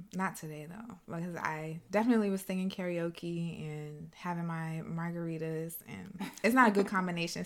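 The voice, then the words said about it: Strained, worn-out singing voice. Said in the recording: “Singing and alcohol is not a good combination, so now my voice is suffering from that.”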